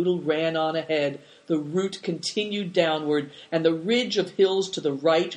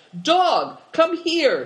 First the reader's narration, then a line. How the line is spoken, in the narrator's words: shouted